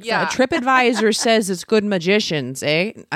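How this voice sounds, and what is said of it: Put-on Wisconsin Fargo-style accent. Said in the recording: “That's not how they talk in Cincinnati ... I'm just throwing all the accents out. ... Like Wisconsin. ... I'm rewatching Fargo.”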